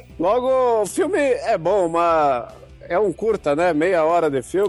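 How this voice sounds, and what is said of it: Usual voice. Nothing is said of it.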